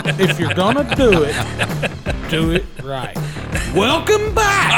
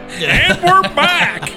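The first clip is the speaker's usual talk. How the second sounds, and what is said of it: Imitates another person's voice. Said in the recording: “in my best Clint accent”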